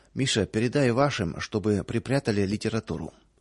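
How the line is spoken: Low voice. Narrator (Russian): хозяин вполголоса сказал

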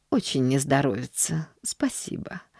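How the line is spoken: Apathetic mumble. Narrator (Russian): пробормотала миссис Сноу, впадая в свою обычную апатию

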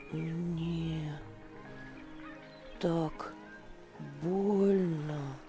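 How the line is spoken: Child mumbling. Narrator (Russian): пробормотал мальчик

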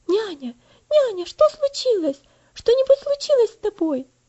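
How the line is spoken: Alarmed girl asking. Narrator (Russian): спросила девочка встревоженным голосом

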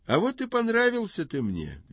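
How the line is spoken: Cheerful. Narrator (Russian): весело говорит отец

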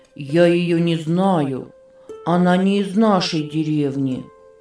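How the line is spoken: Sad. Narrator (Russian): печально сказал он

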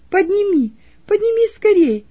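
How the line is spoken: Shout. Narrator (Russian): крикнула Роза

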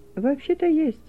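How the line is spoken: Timid. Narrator (Russian): робко произнес Саша

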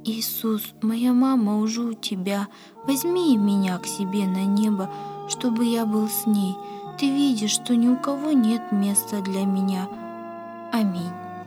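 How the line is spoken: Boy's sighing whisper. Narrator (Russian): Мальчик вздохнул и прошептал

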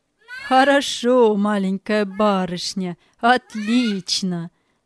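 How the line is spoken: Laughing. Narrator (Russian): смеялся Галлер

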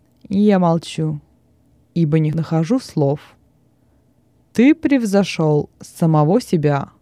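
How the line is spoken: Cold reply. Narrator (Russian): Петроний холодно ответил

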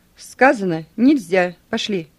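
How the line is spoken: Officer shouting. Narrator (Russian): крикнул майор

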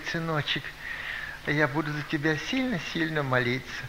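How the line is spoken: Sighing. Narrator (Russian): Она вздохнула, говорит

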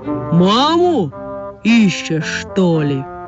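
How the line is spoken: Deep-voiced question. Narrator (Russian): спросила медведица густым голосом

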